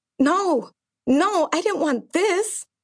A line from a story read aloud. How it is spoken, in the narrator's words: cried